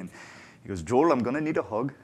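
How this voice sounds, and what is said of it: Put-on accent. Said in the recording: “I'll never try that again accent”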